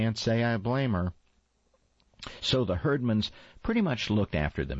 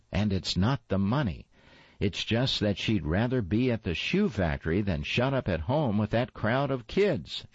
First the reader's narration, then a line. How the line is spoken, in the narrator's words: she sighed